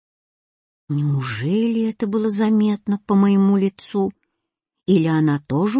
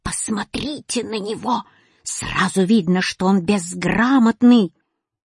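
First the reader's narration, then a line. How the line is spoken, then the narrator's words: Flustered hiss. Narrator (Russian): Запятая еще больше засуетилась и прошипела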